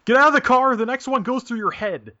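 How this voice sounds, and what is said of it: Menacing yelling. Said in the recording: “I'm yelling at him in a menacing manner ... I'm just yelling like the”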